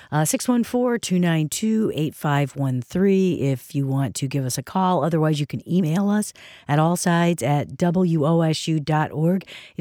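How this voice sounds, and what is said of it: Hoarse, flat voice. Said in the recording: “I've been losing my voice, and I apologize for the hoarseness and the lack of inflection.”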